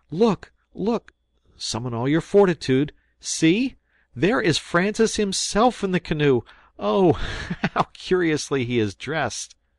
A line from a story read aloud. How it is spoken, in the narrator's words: cried they at once